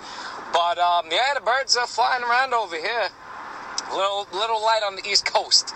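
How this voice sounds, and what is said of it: Slight New York accent, groggy voice. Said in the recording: “Little groggy this morning ... I'm from New York ... That's probably why you hear that little accent.”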